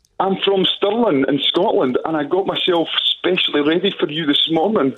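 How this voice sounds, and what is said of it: Scottish accent. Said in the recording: “I love your little accent”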